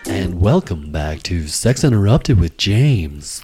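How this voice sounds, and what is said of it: Smooth announcer-style radio voice. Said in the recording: “This is my nice radio voice for the start of this segment ... I practice my radio voice a lot”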